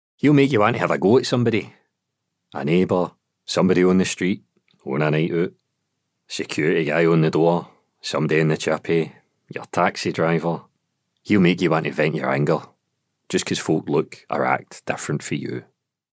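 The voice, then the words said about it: Patronising West of Scotland working-class accent. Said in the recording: “The hate monster speaks almost in a slightly patronising West of Scotland working class accent”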